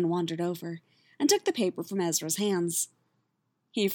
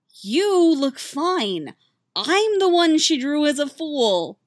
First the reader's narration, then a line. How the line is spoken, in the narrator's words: moaned Ezra